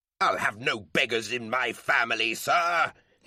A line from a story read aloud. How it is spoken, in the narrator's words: his father roared